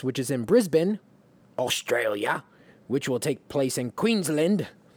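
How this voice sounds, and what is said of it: Poor put-on Australian accent. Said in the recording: “That's very poor Australian accent. ... Horrific. ... Wow, that was very bad.”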